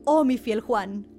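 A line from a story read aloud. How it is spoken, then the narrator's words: King exclaiming. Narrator (Spanish): exclamó el rey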